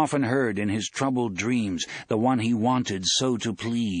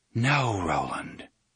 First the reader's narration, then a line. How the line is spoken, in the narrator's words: the voice whispered